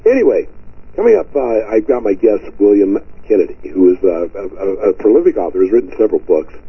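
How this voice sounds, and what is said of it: Squeaky, rough cold-affected voice. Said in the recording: “I have got a very bad cold ... My voice is certainly, as you can tell, it's trashed ... it's kind of squeaky”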